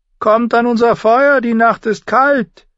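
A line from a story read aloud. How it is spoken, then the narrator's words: Called out. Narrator (German): rief er den schleichenden Schatten zu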